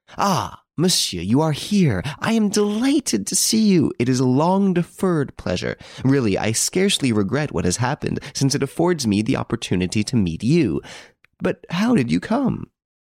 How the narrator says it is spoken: Monsieur Devon exclaimed with much gusto

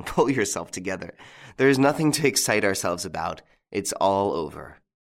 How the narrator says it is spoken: said Lupin, laughing

